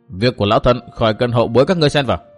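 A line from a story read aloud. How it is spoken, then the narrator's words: Stern old woman. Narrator (Vietnamese): Lão bà nghiêm giọng nói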